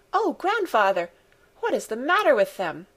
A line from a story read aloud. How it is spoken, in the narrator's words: exclaimed Heidi in shocked surprise